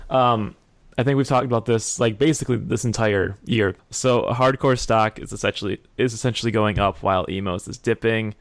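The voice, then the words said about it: Strained, hoarse voice. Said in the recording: “My voice is... I'm losing my voice.”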